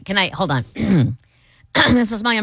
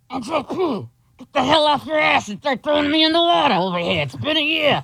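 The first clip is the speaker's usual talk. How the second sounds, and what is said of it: Imitates another person's voice. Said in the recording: “my impression of JP's dad”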